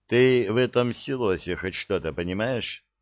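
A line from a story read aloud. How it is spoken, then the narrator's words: Gloomy question. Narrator (Russian): мрачно спросил аферист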